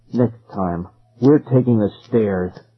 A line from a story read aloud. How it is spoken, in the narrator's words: Ben growled